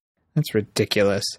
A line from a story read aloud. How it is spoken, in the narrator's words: the driver said under his breath